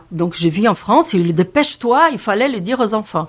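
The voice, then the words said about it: Slight Brazilian accent in French. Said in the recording (French): “vous entendez mon petit accent, je suis brésilienne”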